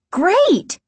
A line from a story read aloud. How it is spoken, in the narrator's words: Margaret and Casey cried in unison